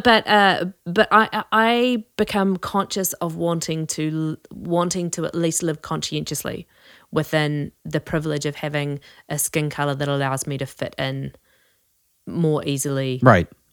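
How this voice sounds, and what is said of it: Noticeable foreign accent. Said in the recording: “the only real marker of my otherness when I'm in a culture like the United States is my accent. I open my mouth and then it becomes clear ... the cute accent”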